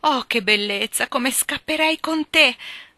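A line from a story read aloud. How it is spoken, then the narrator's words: Exclaiming. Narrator (Italian): esclamò Joe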